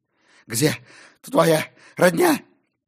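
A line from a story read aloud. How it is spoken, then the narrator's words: Hoarse, breathless while running. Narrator (Russian): прохрипел он на бегу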